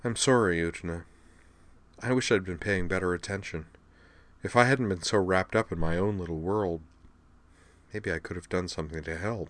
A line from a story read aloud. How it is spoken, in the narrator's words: said quietly